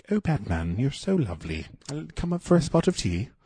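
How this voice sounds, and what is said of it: Put-on British accent. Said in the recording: “couldn't do a British accent”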